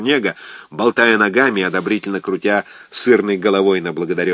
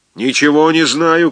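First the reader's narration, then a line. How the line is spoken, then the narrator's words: Shouting. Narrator (Russian): кричал Чернега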